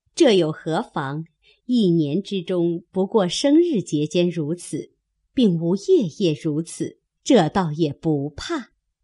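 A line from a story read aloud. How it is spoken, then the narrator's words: Laughing. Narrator (Chinese): 李纨笑道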